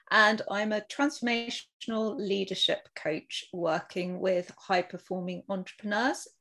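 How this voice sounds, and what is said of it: British accent. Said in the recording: “you can guess from my accent, from the UK”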